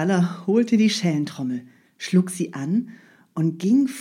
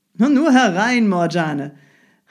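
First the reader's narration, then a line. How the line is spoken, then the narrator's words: Calling out. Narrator (German): rief Ali Baba ihr entgegen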